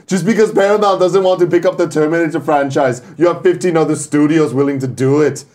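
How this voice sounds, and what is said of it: Imitates another person's voice with accent. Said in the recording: “He's fucking nailing it. ... where did the accent go in that last word? ... It's like, shut up, Arnold.”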